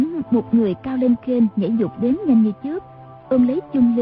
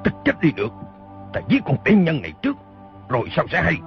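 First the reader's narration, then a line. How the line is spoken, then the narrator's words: Angry shout. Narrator (Vietnamese): quát lên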